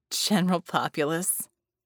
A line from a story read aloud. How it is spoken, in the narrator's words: Scope said and chuckled